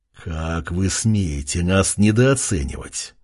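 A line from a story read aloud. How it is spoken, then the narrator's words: Growl through teeth. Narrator (Russian): прорычал он сквозь зубы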